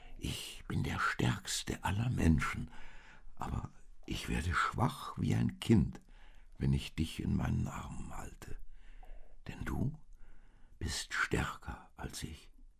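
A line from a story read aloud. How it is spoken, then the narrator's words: Man whispering. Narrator (German): flüsterte der Mann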